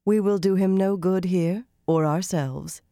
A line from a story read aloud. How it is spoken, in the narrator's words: Cadswain said calmly